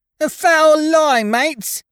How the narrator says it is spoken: screeched young Dickon

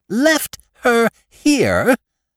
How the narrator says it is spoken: cried my wife

